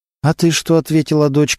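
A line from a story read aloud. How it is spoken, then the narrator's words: Plain. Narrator (Russian): спросила она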